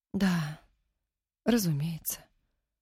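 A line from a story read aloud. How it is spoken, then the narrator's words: Dejected voice. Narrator (Russian): упавшим голосом проговорила Нина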